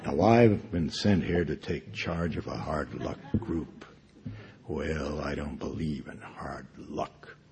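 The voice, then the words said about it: Put-on American accent, imitated actor. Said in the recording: “doing his American accent, which consisted of him imitating Gregory Peck in 12 O'Clock High”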